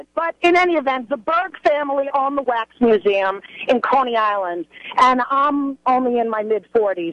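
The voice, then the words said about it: Strong Brooklyn accent. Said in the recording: “I grew up in Brooklyn. Obviously, my accent is still from there ... the word accent should be spelled with A-X-E ... You're worse than me.”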